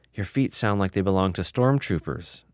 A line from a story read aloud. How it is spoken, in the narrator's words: Noel whispered